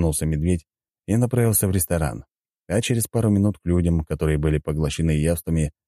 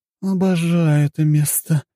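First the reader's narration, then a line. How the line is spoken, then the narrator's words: Moaning. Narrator (Russian): простонала зеленоволосая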